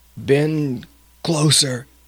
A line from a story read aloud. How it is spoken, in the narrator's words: gasped Topal